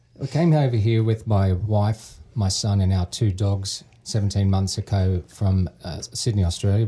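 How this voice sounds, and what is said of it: Australian accent. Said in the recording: “the Australian accent”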